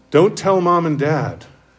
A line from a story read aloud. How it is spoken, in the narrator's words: begged